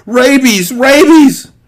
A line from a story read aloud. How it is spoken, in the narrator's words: Fezzik cried